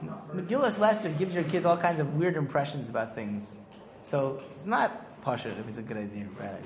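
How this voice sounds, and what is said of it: Usual voice. Nothing is said of it.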